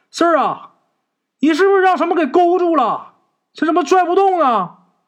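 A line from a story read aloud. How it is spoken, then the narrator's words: Shouting from above. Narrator (Chinese): 陈四他三叔在上面喊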